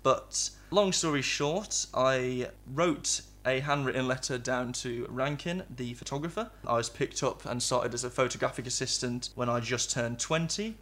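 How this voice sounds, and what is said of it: English Midlands accent. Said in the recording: “Midlands born. I don't know if you can tell by this accent”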